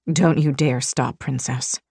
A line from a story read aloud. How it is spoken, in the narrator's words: Rain rasped